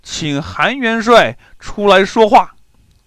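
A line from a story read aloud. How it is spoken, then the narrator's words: Shouting from ship. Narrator (Chinese): 金兀术站在船头喊道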